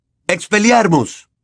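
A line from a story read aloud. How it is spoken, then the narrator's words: Shouted. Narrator (Spanish): James gritó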